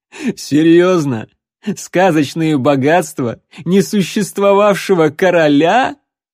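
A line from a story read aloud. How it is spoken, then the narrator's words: Forced out through laughter. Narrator (Russian): выдавил из себя следопыт сквозь смех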